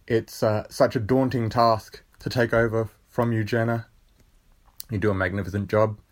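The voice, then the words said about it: Australian accent. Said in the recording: “you can tell from my accent that I'm not from the Northern Hemisphere. I am an Aussie boy. I'm from South Australia”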